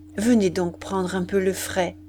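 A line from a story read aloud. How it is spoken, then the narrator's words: Plain. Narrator (French): dit-il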